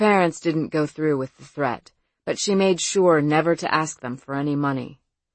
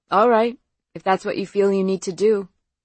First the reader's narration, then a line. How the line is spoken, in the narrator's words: Faith said tightly